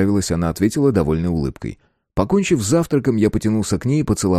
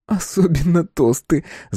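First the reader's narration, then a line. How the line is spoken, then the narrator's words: Laughing. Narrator (Russian): засмеялась Ольга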